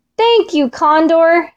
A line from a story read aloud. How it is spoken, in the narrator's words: shouted Fox